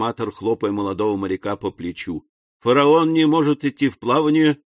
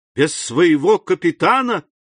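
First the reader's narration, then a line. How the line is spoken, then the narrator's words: Joyful exclamation. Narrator (Russian): вскричал Дантес, и глаза его радостно заблестели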